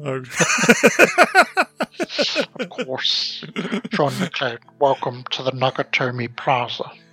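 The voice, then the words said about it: Put-on English accent. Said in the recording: “That's a pretty good fucking English accent you put it on there. ... It could be a fucking actor with that accent.”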